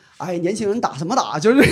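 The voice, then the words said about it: Heavy Northeastern Chinese accent. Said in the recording (Chinese): “你这还是东北喇嘛？ ... 那个口音特别重”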